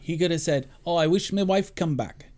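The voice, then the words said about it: Bad put-on Scottish accent. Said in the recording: “That's my bad accent. ... That was terrible. ... That's terrible. Stop it. ... I'll just keep doing my Sean Connery.”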